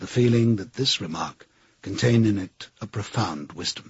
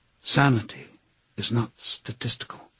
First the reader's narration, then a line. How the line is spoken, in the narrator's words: He fell asleep, murmuring